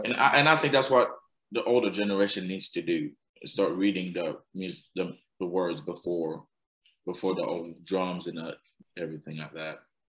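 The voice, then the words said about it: Accent, struggles with TH sounds. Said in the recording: “my accent and stuff... There are too many TH sounds in it... I can't pronounce these things”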